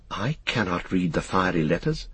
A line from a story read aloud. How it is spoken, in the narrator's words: said Frodo in a quavering voice